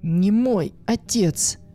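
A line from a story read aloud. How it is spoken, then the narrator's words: Young woman, firmer voice. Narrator (Russian): окрепшим голосом закончила девушка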